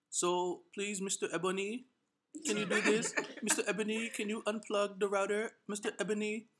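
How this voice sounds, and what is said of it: Put-on Indian accent. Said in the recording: “Is this your Indian accent?”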